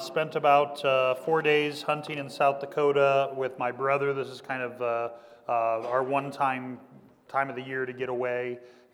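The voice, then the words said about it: Slightly raspy voice. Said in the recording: “My voice is a little raspy. ... I think it's from yelling”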